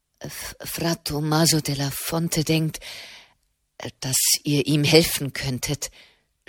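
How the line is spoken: Stammering. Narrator (German): stammelte

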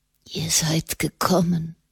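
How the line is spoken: Whispering man. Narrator (German): flüsterte er

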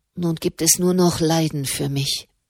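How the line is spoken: Murmur. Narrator (German): murmelte sie

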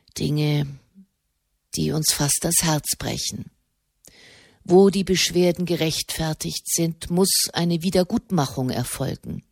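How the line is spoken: Spoken softly. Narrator (German): sprach er leise

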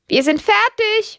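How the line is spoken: Calling out. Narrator (German): ruft Lydia

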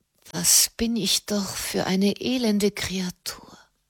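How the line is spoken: Whisper. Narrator (German): flüsterte sie

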